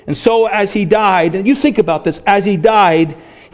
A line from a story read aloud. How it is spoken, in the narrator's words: he cried out and he prayed